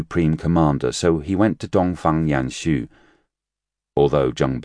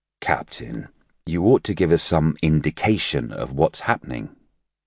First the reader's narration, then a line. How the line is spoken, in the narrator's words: he said